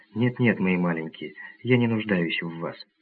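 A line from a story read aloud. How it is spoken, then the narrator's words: Affectionate. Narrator (Russian): Она сказала ласково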